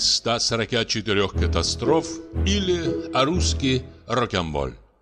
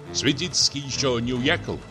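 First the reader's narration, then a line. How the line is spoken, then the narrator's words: Plain. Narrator (Russian): спросил Рыков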